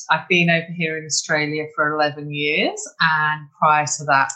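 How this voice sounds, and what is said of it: English accent. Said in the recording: “that is not a Queensland accent ... I'm English ... My Australian friends think I sound very English still”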